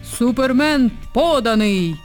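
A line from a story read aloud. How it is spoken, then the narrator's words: Sudden bark right by the ear. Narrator (Ukrainian): раптом гаркнув дивак над самісіньким вухом схарапудженої Ангеліни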